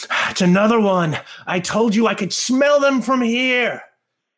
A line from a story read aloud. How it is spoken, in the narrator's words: it sort of yells and it sort of says